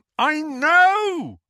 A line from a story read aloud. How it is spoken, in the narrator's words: Harry bellowed